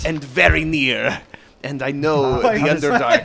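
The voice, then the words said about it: Put-on fantasy drow accent. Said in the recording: “I want to try and mimic the drow accent.”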